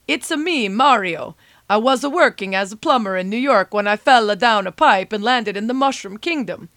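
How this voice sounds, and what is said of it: Mario impression accent. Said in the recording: “pardon the accent.”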